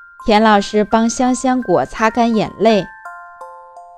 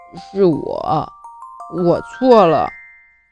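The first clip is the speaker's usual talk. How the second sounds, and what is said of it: Quiet muttering voice. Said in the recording (Chinese): “小声嘀咕着”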